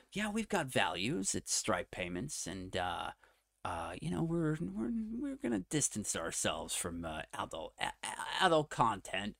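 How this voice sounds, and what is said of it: Put-on American accent. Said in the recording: “I'm struggling with the accent a bit. In fact, I don't know why I'm doing an American accent.”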